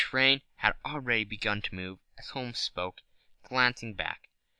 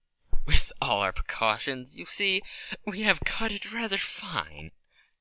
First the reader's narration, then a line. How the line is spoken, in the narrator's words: said Holmes, laughing